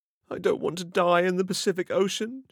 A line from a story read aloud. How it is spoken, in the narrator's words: she cried